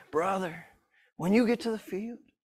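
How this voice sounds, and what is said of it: Imitates another person's voice. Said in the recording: “I try to do a Mickey Kofer impression.”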